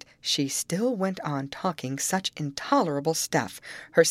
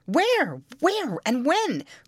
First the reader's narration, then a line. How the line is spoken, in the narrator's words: cried they eagerly